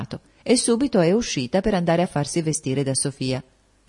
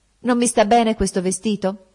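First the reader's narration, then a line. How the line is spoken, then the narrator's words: Excited exclamation while jumping. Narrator (Italian): esclamò saltando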